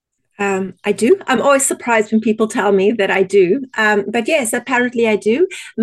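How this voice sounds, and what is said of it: South African accent. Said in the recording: “You have an accent. ... My accent is originally from South Africa”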